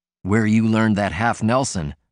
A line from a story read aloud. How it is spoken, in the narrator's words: Martin answered